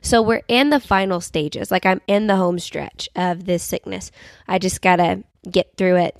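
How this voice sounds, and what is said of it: Sick voice, cracking and cutting out. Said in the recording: “not so nasally, but instead my voice is going to randomly cut in and out. Like I sound like I'm like a teenage boy going through puberty every once in a while ... sinus infection”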